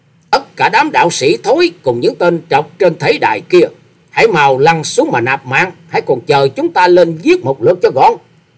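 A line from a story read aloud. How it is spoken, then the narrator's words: Harsh loud shout. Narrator (Vietnamese): Quái nhân áo xanh dẫn đầu đi trước, gằn giọng quát to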